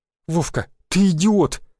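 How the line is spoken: Frowning girl exclaiming. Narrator (Russian): воскликнула девушка, нахмурив бровки

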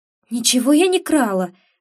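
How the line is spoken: Exclaimed. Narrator (Russian): воскликнула

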